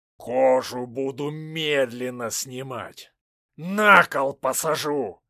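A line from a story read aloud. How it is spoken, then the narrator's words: Growling. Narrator (Russian): рычал Шуйский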